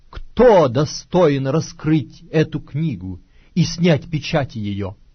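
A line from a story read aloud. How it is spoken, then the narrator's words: Loud proclaiming angel. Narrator (Russian): ангела сильного, провозглашающего громким голосом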